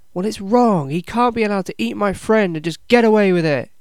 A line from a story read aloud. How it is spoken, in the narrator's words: yells Ezra, defiantly